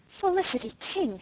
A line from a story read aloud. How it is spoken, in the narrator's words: she exclaimed